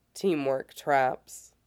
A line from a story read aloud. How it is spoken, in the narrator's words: he says dryly